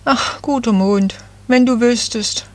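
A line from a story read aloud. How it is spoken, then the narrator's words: Sighing little tree. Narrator (German): seufzte das Nadelbäumchen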